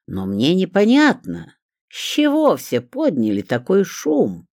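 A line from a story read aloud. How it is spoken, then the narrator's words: Sugary, suppressed gloating. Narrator (Russian): Еле сдерживая злорадство, продолжала допрос Клавдия Брониславовна сахарным голосом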